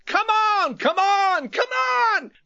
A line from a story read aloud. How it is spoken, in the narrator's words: the three men began to shout